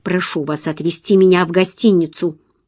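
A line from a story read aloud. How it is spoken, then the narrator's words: Through gritted teeth. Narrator (Russian): Он процедил сквозь зубы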